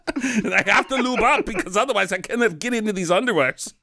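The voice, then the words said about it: Poor imitation of another person's voice. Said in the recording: “That's a really bad Schwartz impression. Usually pretty good.”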